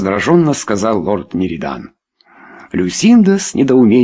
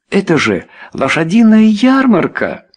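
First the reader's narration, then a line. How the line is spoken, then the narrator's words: Exclamation. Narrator (Russian): воскликнула Люсинда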